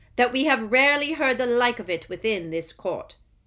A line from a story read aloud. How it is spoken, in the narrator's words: said Crouch, speaking more loudly, drowning out his son's voice